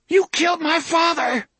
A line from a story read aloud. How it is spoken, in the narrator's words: she screamed at him